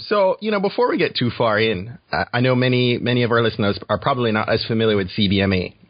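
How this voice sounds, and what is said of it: Jamaican accent. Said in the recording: “I didn't know you had Jamaican roots ... I just love your accent ... I'm Jamaican ... so did I”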